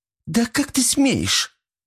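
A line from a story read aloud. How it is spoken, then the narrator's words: Shrill squeal. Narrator (Russian): взвизгнула она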